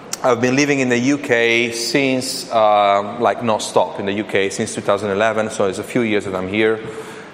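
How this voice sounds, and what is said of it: Italian accent. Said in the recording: “as you noticed from my accent, I'm not English. In fact, I'm Italian.”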